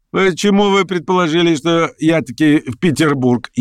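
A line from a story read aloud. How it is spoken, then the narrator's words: Laughing. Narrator (Russian): засмеялся и Петр Степанович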